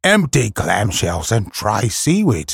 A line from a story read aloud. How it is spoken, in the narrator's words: snorted Sea Catch